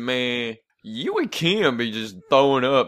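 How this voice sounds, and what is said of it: Big, heavy-sounding imitation of another person. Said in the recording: “That was such a good impression. ... You made him sound a lot bigger than he actually is.”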